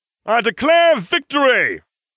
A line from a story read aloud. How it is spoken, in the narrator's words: shouted